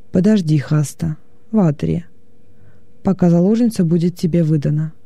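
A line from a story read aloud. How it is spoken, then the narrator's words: Calm. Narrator (Russian): уже спокойно сказал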